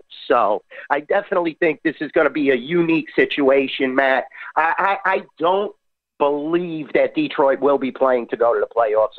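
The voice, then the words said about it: Texas accent. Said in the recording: “the Texas accent”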